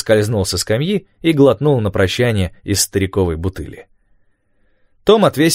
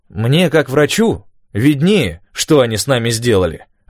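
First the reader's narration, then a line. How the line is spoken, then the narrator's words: Snapping retort. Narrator (Russian): огрызнулся Док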